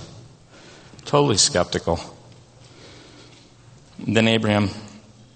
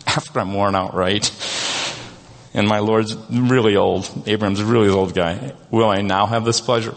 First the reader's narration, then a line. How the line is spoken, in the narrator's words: laughed to herself as she thought